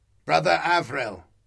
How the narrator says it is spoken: the captain snapped

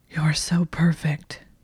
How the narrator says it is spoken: gasped against her lips

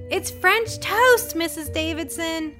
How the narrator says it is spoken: cried Jen

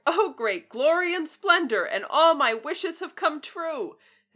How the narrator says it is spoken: laughed aloud for sheer delight cried

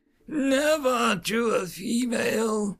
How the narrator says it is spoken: Gaval croaked

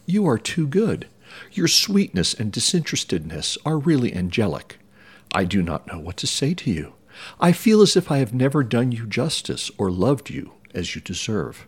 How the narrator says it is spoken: exclaimed Elizabeth

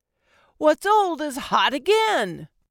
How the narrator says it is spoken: I yelled after him

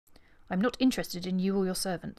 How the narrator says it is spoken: snapped Miss Taverner

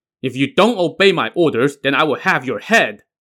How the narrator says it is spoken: barked

